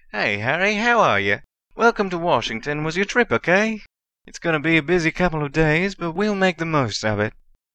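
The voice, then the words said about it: Slightly drawling American accent. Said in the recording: “said in a slightly drawling accent,”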